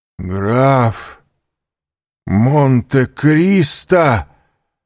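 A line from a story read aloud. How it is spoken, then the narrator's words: Horrified exclamation. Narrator (Russian): В ужасе воскликнул Данглар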